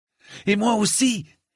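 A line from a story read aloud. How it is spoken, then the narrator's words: Angry exclamation. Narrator (French): s'exclama Raymond avec colère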